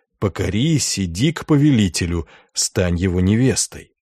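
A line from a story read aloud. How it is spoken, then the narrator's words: Whispering voices. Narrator (Russian): Голоса в монастыре шептали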